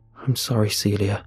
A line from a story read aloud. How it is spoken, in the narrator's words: I murmur sadly